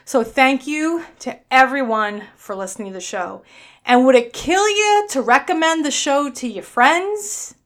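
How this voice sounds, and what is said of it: New York accent. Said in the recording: “my annoying New York accent”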